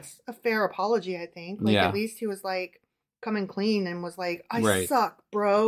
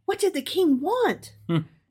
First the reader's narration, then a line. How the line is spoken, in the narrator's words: she asked excitedly